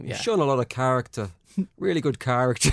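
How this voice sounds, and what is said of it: Terrible generic Irish Brendan Rodgers impression. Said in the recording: “Who the fuck was that meant to be? ... Your generic Irish accent. ... your terrible Brendan Rodgers alter ego”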